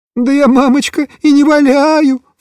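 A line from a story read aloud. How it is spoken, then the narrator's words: Sobbing. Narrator (Russian): всхлипывал Тоник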